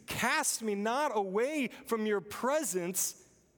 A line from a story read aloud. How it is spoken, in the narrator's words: So when David pleads